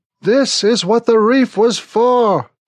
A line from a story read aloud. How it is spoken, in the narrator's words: Smithick yells into my ear